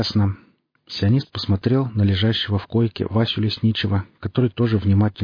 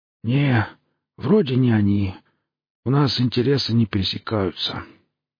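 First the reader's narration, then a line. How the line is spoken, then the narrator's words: Injured man's rasp. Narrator (Russian): прохрипел искалеченный сталкер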